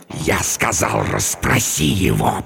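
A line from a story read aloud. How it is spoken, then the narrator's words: Hiss. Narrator (Russian): прошипел он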